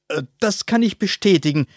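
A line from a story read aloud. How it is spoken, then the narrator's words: Called out. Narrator (German): rief der Präsident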